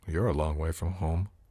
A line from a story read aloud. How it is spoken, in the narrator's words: I muttered